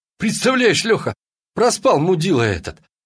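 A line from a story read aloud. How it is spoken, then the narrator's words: Joyful announcement. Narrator (Russian): радостно объявил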